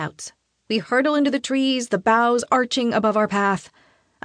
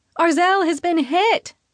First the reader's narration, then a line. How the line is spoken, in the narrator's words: shout